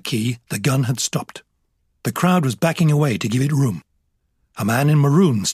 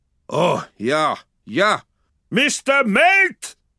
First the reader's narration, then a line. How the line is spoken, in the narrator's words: the captain bellowed